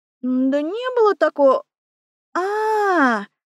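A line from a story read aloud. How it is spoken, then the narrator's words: Drawn-out, sudden realization. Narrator (Russian): протянула я, прибитая озарением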